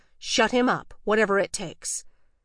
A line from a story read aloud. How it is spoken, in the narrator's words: He snapped at Laura